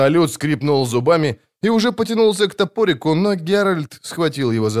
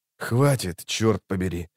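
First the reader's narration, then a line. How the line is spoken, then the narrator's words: Hissed. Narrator (Russian): прошипел ведьмак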